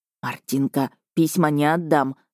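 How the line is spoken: Whispering in ear. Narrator (Russian): зашептал мне в ухо Михась

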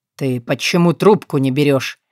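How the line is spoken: Growling through clenched teeth. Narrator (Russian): рычит сквозь зубы

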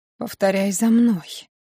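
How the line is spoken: Whisper. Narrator (Russian): прошептал

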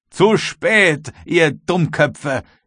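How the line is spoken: Thundering young man's shout. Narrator (German): rief der junge Kapitän mit Donnerstimme

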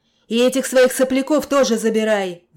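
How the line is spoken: Roaring. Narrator (Russian): взревел мастер Джереми

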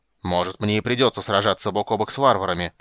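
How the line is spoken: Growling. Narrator (Russian): прорычал он

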